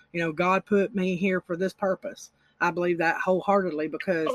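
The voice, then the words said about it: Alabama Southern US accent. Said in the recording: “where are you from with that accent? You, I think you said Alabama, right?”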